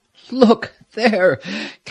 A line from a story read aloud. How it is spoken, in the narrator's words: Captain Wilson cried in pained voice